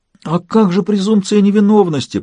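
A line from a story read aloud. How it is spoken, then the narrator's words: Groan. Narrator (Russian): простонал я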